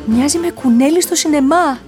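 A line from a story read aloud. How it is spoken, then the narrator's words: Shout. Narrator (Greek): φώναξε ο Μπράιαν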